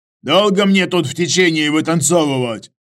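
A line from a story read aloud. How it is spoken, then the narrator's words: Bark. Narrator (Russian): почему-то рявкнул Иваныч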